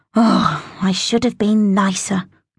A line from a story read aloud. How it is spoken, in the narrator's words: groaned Nin out loud